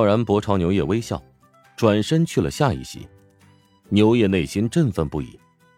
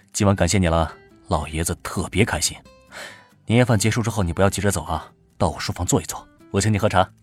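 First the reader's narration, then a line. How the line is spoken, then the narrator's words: Low voice. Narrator (Chinese): 低声道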